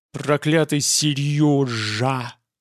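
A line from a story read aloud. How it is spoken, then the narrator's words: Hissed. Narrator (Russian): прошипел Геллерт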